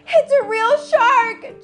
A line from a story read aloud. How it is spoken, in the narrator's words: Jubilee shouted with fright